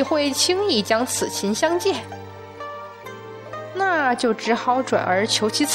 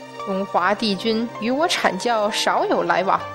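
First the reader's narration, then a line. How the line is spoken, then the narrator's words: Cold sneer. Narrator (Chinese): 元始天尊冷笑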